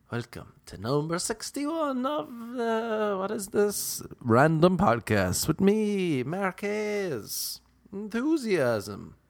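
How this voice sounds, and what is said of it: Enthusiastic put-on fake accent. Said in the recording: “fake voice, not my real accent. It's all an act.”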